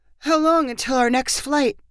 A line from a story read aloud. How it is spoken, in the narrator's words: Christy asked in a sleepy voice